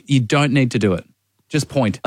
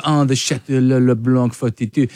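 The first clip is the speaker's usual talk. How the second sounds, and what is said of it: Put-on French accent. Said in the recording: “ordering French wine at restaurants with the accent”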